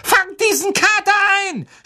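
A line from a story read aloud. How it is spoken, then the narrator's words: Shouting. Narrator (German): schrie Ron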